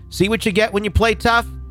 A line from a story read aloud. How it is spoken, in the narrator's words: Enraged, Captain Delamy yelled at the Algerian authorities